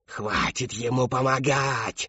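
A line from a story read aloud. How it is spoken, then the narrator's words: Insistent repetition. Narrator (Russian): твердила Шептунья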